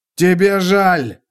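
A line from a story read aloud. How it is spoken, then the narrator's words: Shouting. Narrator (Russian): закричал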